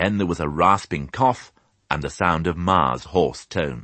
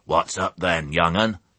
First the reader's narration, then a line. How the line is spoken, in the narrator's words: she croaked